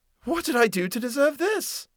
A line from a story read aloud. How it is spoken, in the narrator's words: cried